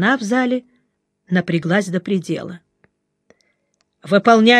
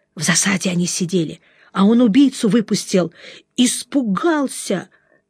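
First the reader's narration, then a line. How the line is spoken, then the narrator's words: Loud whisper, young woman. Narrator (Russian): Девчушка в сержантских погонах … громко шепнула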